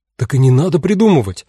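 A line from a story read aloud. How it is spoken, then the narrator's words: Exclamation. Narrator (Russian): воскликнула Эва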